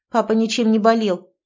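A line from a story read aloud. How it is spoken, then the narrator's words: Curt, clipped. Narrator (Russian): отрывисто сказала Катя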